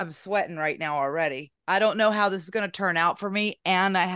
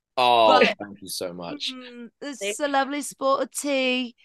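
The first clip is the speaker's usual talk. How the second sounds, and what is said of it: Weak British accent drifting Australian. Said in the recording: “my British accent, you would think it would be much better because I'm married to a Brit, obviously, but it is not. I go Australian.”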